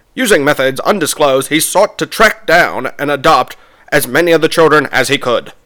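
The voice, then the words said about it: Old-timey fast-talking newsreel narrator. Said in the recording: “narrator in like a, I mean, in a like ... old-timey... ... It's just that fast talking, you know, news.”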